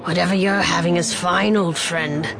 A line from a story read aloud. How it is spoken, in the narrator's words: Bok said, his voice raspy